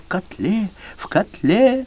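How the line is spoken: Whisper. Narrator (Russian): Сандзюро зашептал

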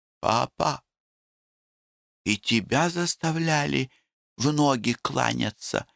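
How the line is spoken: Whispered. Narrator (Russian): шептала Нюрочка

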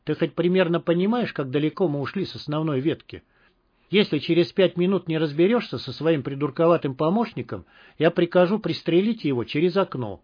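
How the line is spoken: Quiet, into ear. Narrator (Russian): полковник тихо сказал машинисту на ухо

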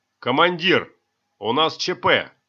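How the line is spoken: Yelling. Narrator (Russian): заорал бортмеханик с порога

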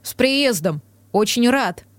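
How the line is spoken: Tossed over shoulder. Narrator (Russian): бросив через плечо

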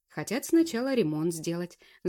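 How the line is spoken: Thoughtful. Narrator (Russian): задумчиво проговорил Макаров

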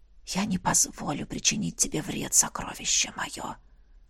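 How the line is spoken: Whispered. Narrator (Russian): прошептал дракон

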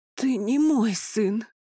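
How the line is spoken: Breathless gasp. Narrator (Russian): выдохнула она, покачнувшись

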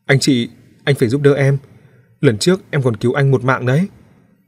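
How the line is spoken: Shouting. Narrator (Vietnamese): hét nói

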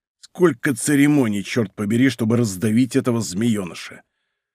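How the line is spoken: Grumbling. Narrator (Russian): Портос ворчал

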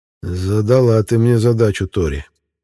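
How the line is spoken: Sighing king. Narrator (Russian): вздохнул король

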